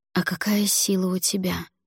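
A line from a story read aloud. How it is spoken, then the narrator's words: Whispered question. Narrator (Russian): шепотом спросила я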